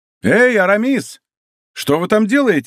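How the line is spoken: Friends shouting. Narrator (Russian): закричали ему друзья

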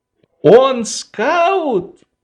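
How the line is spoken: Exclaiming. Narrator (Russian): воскликнул Швейк

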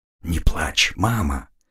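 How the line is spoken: Choked whisper. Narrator (Russian): прошептал я, сглотнув комок, подступивший к моему горлу

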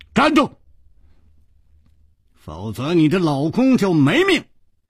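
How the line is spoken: Shouting. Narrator (Chinese): 楚留香喊道

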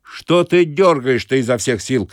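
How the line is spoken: Bathhouse attendant shouting. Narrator (Russian): кричал банщик на здоровенного малого

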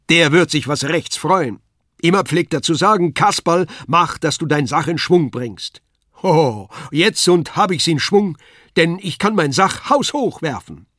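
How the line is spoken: Calling out. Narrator (German): rief er

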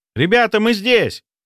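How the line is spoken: Shout. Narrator (Russian): крикнул нам Сеня

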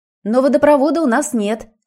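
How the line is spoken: Shouted. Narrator (Russian): крикнула она

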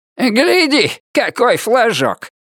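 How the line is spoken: Shout. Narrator (Russian): прокричал он

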